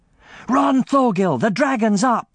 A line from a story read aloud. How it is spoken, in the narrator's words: yelled Jack